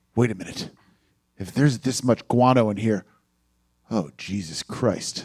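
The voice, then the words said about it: Imitates another person's voice. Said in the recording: “I'll do my imitation of Lou Diamond Phillips saying it”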